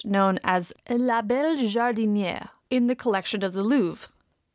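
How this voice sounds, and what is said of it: Terrible put-on French accent. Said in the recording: “my terrible French accent.”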